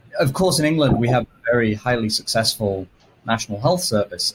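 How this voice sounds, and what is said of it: British accent, somewhat Americanized. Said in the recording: “as listeners can probably tell from my accent, I'm British originally. Although my sister will happily tell you I now sound more American than British.”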